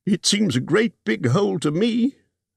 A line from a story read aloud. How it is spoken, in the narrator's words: squeaked Bilbo, who had no experience of dragons and only of hobbit holes